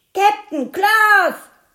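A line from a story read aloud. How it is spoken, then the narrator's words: Bellowing. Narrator (German): brüllte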